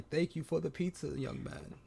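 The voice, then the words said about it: Old lady voice with accent. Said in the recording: “why I gotta sound like an old lady first? ... where did that accent come from?”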